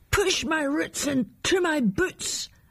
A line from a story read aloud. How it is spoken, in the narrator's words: new plant shouted to the wind